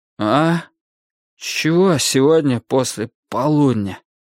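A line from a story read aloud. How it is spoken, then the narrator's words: Hoarse wheeze. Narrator (Russian): прохрипел я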